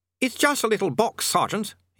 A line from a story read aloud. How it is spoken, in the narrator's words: he snapped